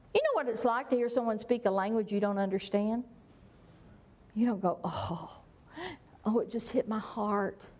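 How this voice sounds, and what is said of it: Southern American accent. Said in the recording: “having a southern accent”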